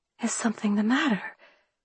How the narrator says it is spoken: I whispered to Hamilton

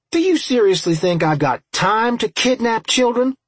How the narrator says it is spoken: I snapped

